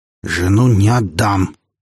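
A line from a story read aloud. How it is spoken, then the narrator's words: Growling. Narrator (Russian): прорычал Олег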